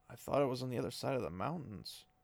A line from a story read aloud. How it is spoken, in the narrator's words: Rand mumbled